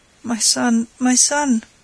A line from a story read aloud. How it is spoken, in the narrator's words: stammered, too weak